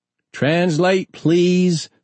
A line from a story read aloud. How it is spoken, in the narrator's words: the Asheville rep shouted from the back of the room